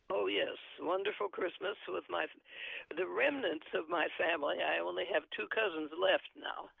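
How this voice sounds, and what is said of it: Gravelly voice. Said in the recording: “My voice is gravelly”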